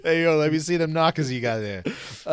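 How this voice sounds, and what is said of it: Put-on Brooklyn Italian-American accent. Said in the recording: “like a paisan at the end? ... I went from Miami to Brooklyn like that. ... I'm not good at accents.”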